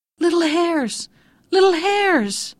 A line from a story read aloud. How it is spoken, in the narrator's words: Letiko called out